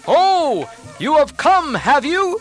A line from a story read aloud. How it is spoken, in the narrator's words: roared till the four quarters shook